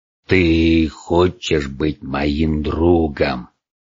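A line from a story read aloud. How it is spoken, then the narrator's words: Monstrous creature growling. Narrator (Russian): рыкнуло то, что когда-то было милым мохнатым другом всех детей, Чебурашкой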